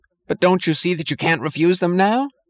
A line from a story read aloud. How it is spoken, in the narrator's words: yelled